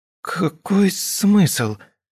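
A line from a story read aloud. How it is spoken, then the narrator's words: Dry-throated croak. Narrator (Russian): прохрипела я, предварительно попробовав облизать пересохшие губы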